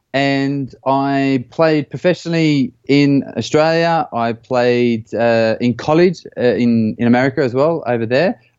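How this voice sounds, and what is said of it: Slight Australian accent. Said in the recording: “I grew up in Australia, and you can probably tell by the little twang of the accent.”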